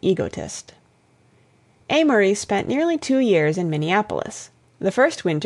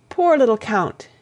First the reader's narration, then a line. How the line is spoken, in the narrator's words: he cried